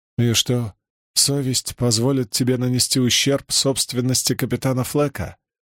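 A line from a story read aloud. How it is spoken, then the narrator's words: Gentle question. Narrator (Russian): Мягко поинтересовалась она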